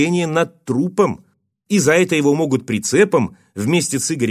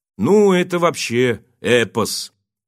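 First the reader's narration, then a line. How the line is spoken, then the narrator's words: Indifferent voice. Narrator (Russian): Игорь откликнулся на рассказ водителя таким равнодушным голосом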